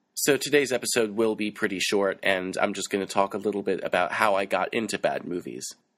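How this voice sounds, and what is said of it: Voice sounds rough and unwell. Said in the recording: “not have to hear my stupid voice today because I sound like crap”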